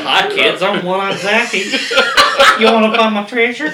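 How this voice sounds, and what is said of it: Old Greg character voice impression. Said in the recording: “why does your voice sound like Old Gray? ... If you haven't seen Old Greg, go look up Old Greg.”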